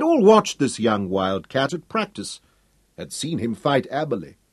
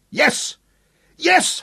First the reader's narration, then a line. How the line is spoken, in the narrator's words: shouted